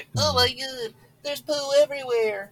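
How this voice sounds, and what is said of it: Silly mocking character voice. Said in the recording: “And a stupid voice.”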